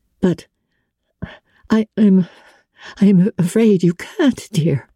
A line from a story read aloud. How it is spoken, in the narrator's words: she said in an unsteady voice